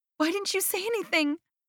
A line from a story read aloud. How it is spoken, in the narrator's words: I squealed